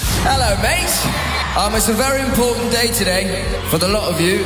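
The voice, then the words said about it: Fairly good put-on British accent. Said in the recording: “his British accent. Actually pretty good... Actually pretty decent”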